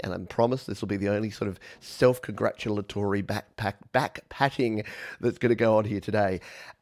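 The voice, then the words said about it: Australian accent. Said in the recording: “my funny Australian accent”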